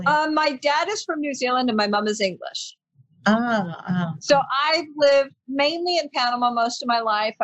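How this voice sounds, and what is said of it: American accent. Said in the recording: “I speak English with an American accent”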